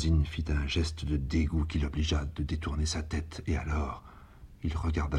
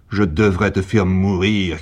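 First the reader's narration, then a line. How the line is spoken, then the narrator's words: Shouting. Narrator (French): cria Sarrazine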